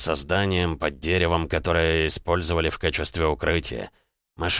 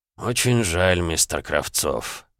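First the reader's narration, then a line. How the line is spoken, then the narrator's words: Sighing. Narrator (Russian): вздохнул детектив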